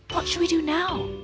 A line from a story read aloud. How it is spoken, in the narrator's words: he cried